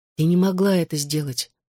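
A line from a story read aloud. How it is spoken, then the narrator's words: Soft. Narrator (Russian): мягко сказала Клэр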